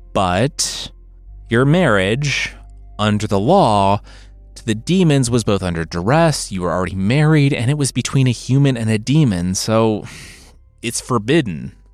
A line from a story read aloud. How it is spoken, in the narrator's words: the rabbi sighed